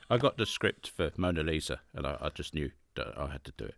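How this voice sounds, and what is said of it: Michael Caine impression. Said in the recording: “It gives me an opportunity to do the Michael Caine accent.”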